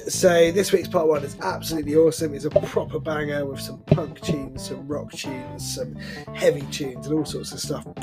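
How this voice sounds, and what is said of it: Hoarse, congested voice. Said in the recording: “as you can probably tell, I'm sort of losing my voice, got a bit of a cold.”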